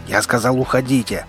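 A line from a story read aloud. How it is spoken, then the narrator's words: Roared. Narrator (Russian): проревел левша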